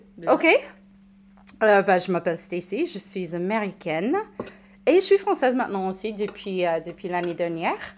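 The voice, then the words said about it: American accent speaking French. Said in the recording (French): “tu es américaine. ... oui, je suis américaine. ... ça, s'entend pas mal, je pense, avec mon accent”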